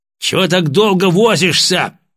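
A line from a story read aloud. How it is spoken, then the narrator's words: Barked over headphones. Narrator (Russian): немедленно рявкнул в наушниках голос товарища полковника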